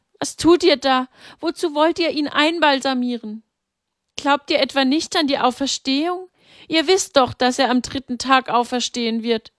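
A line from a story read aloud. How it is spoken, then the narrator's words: Calling out. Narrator (German): rief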